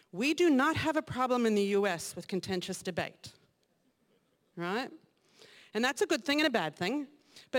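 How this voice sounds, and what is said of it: Mixed American accent. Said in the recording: “my somewhat confused accent, I was born and raised in the United States”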